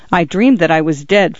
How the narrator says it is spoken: Francis said

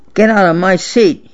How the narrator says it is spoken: he snarled

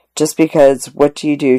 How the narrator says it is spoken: she asked

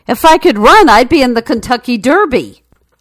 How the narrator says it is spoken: The horse yelled back irritably

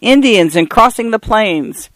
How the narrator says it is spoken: Carl turned fiercely on him

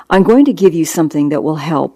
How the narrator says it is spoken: I said

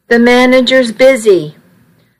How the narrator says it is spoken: a girl yelled over a lot of noise

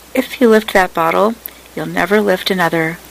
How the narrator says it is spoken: Brown said calmly

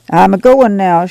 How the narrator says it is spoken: she said

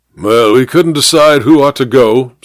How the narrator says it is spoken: said the major gruffly

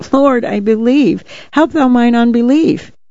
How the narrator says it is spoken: the father of the child cried out and said with tears

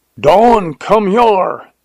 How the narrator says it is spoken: yelled Jones

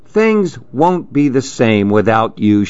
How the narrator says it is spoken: she said

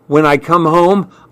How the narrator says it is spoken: I answered shakily

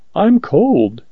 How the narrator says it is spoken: she faltered

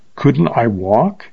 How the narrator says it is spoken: she faltered

